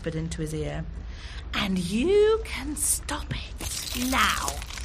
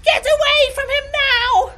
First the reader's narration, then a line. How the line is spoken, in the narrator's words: screeched the Ice Queen